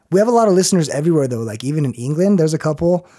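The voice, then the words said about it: Hoarse, raspy voice. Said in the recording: “Hopefully I don't sound like a 40-year-old smoker... My voice is fucked... I feel like a frog or something”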